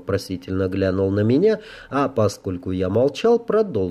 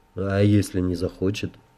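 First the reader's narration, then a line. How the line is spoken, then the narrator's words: Heavy sigh. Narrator (Russian): Мэр тяжело вздохнул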